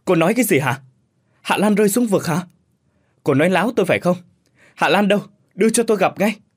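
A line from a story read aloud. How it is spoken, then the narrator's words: Shouting into phone. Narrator (Vietnamese): Cường hét lên trong điện thoại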